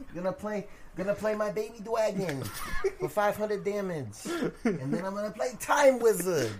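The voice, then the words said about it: Imitates Joey Wheeler cartoon voice. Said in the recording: “your Joey Wheeler impression”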